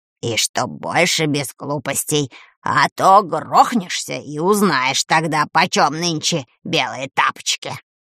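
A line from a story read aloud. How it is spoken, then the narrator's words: Relieved, to herself. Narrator (Russian): С облегчением сказала сама себе Таня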